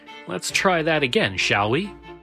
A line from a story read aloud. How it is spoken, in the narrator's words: The lawyer then turned to everyone in the room and said with a chuckle